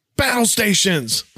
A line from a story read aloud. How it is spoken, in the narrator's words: The skipper all of a sudden yells out